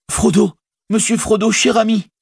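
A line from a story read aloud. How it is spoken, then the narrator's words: Tearful cry. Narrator (French): s'écria Sam, presque aveuglé par les larmes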